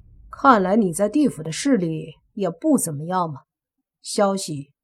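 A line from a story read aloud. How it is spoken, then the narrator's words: Cold after a laugh. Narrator (Chinese): 莫凡也忍不住跟着笑了笑，随即冷冷的说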